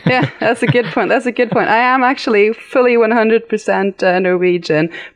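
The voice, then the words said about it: Light British English accent. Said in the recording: “you have a little bit of an accent... It doesn't sound Norwegian... I did grow up in the UK. So that's where my accent comes from.”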